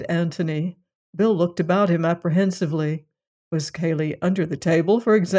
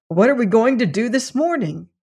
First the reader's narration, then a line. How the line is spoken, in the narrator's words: he said eagerly